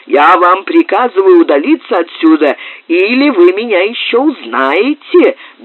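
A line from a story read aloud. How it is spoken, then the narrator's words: Furious shout. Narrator (Russian): бешено закричал Муре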